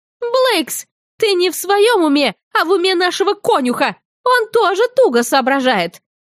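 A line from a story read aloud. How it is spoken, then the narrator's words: Shrill and irritated. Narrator (Russian): Голос смотрителя звучал визгливо и раздраженно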